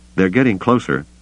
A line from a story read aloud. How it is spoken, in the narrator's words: Luke warned him